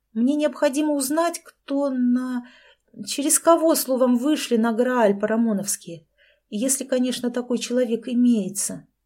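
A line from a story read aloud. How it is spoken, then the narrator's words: Uncertain, trailing off. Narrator (Russian): неуверенно закончила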